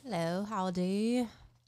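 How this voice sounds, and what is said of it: Playful put-on accent greeting. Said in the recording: “What was that accent at the beginning?”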